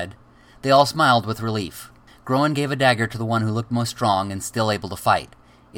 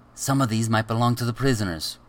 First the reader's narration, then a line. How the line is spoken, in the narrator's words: whispered